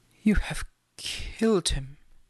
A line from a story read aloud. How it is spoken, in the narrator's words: muttered